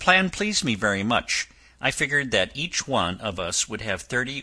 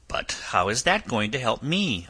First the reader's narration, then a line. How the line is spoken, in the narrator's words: I asked